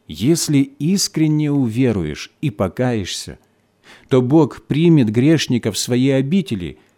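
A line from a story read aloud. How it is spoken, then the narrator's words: Plain. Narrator (Russian): снова ответил я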